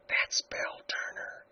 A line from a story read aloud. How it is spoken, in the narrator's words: whispered Helen